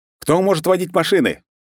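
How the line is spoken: Loud shout. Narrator (Russian): громко крикнул

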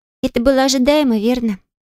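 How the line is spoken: Sigh. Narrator (Russian): вздохнула следом Елена

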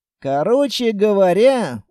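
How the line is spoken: Sigh. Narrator (Russian): вздохнул

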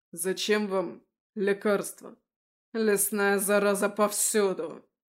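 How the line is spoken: Barked. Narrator (Russian): рявкнул в ответ Андаим

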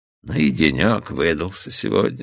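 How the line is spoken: Tired. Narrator (Russian): устало произнес Оуэн

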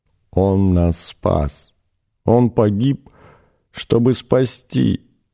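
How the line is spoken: Moaning. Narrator (Russian): простонала та

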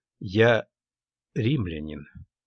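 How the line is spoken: Slow, aware of loss. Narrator (Russian): медленно проговорил я, хорошо сознавая, что эти слова отнимают ее у меня навсегда

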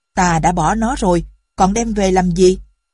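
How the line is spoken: Father angry question. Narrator (Vietnamese): Người cha giận dữ hỏi

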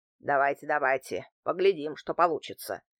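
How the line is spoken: Muttering. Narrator (Russian): пробормотал антиквар

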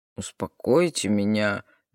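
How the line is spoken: Mocking reply. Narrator (Russian): насмешливо ответил Брука

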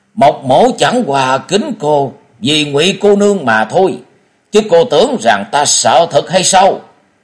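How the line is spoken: Loud, furious. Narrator (Vietnamese): Mộc Thiên Hồng cả giận lớn tiếng

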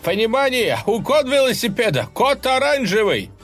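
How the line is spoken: Robbed man shouting into radio. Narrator (Russian): обворованный курьер уже кричал в рацию

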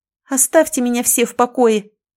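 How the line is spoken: Angry outburst. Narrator (Russian): в сердцах выкрикнула я

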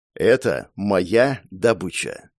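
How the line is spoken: Slow, emphatic, each word stressed. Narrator (Russian): Медленно припечатывая каждое слово, ответил я

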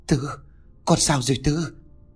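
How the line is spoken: Trembling, fearful whisper. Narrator (Vietnamese): Ông run giọng thều thào sợ hãi

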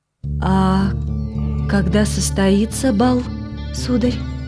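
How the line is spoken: Weakening voice, unhappy queen. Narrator (Russian): спросила несчастная королева слабеющим голосом

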